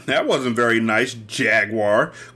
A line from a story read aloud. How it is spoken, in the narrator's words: Quilil said sarcastically